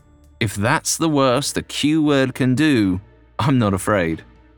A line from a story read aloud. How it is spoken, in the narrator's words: she said